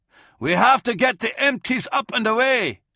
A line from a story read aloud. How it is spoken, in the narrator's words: Kolia yelled to Baskerville